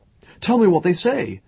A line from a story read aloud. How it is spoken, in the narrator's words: said desperately